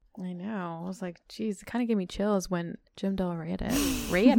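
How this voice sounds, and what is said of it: Usual voice. Nothing is said of it.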